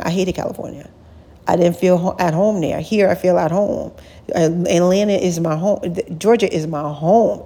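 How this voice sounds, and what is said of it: New York accent. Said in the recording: “we hear your accent. You're not from here. You sound like you're from the North. ... I'm a New Yorker. I'm a Long Island girl.”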